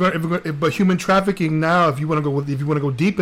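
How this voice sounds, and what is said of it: Usual voice. Nothing is said of it.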